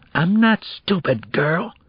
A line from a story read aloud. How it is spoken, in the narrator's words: he whispered angrily